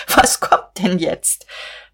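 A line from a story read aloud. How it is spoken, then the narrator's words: Choking with laughter. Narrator (German): sagte vor Lachen erstickend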